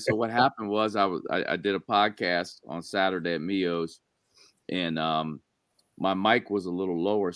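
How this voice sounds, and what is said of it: Hoarse, strained voice. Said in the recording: “apologize for my voice ... I had to like literally yell like during the entire hour podcast ... My voice is shot”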